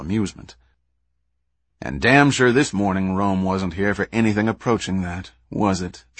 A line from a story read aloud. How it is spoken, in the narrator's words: Jack asked himself coldly